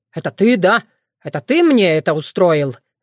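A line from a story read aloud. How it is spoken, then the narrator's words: Angry growl. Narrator (Russian): гневно прорычал Уртян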